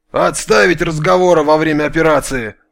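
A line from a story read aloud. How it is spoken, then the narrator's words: Menacing bear cutting off. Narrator (Russian): грозно оборвал их медведь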